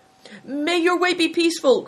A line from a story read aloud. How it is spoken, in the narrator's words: cried Bator